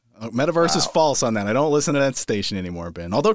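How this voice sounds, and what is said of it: Usual voice. Nothing is said of it.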